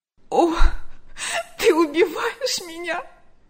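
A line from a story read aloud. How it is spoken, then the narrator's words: Sobbing. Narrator (Russian): рыдала она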